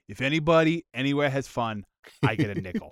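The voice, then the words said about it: Imitates another person's voice. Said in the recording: “my impression of”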